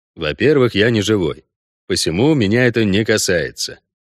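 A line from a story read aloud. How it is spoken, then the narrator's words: Even explanation. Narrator (Russian): ровным голосом пояснил Геральт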